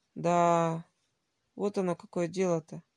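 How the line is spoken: Old man, dejected voice. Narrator (Russian): произнес старик упавшим голосом

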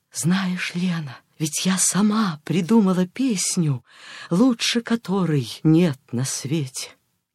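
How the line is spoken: Whisper close to ear. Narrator (Russian): К самому уху ее склонившись, я прошептала

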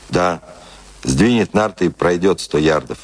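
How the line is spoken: Calm confirmation. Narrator (Russian): спокойно подтвердил Джон Торнтон

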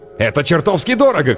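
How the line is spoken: Man shouting. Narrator (Russian): крикнул мужчина

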